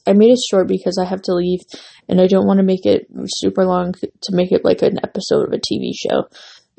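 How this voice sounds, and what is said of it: Hoarse, fading voice. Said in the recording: “losing my voice, so you can hear me like talking, but I'm losing my voice.”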